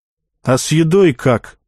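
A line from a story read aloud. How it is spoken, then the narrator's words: Plain. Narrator (Russian): спросил я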